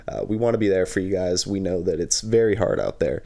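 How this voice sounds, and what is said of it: Strained, unwell-sounding voice. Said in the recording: “sorry for the voice. I am in pain.”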